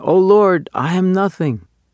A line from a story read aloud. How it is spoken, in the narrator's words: The cantor, deeply moved in his heart, exclaimed in turn